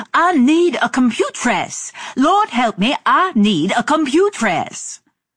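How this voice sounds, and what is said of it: Exaggerated American accent. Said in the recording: “With an exaggerated American accent, she kept bouncing like Bubbles.”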